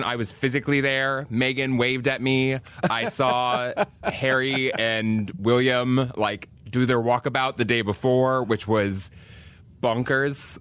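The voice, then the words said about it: Put-on British accent. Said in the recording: “You come back with the British sayings and accent now.”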